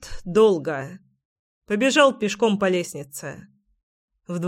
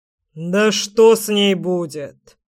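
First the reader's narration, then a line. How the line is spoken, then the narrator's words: Menacing reply. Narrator (Russian): грозно ответил крёстный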